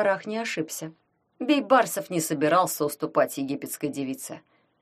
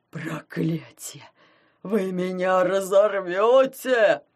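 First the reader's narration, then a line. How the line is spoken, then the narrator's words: Powerful howl. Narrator (Russian): взвыл Фофанбок, вкладывая в свой вопль чудовищную интуитивную силу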